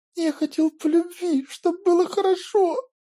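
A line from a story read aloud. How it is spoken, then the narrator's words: Choking sobs. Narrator (Russian): Давясь рыданиями, ответил Петр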